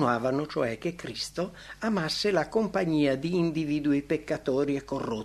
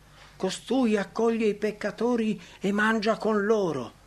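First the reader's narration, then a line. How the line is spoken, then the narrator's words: Indignant exclamation. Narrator (Italian): i rabbini manifestavano apertamente la loro indignazione esclamando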